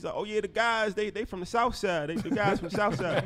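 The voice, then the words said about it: Imitated Chicago South Side voice. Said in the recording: “that Chicago impression”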